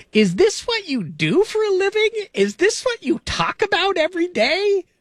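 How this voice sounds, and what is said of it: Imitates a mother's voice. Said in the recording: “My best mom impersonation.”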